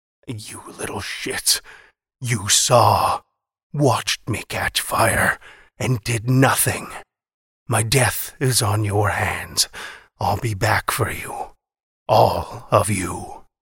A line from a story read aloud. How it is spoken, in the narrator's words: From between scorched, cracked lips he wheezed